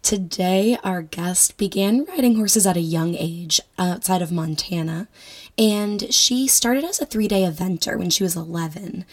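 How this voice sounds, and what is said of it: Hoarse, strained voice. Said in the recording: “I am obviously losing my voice,”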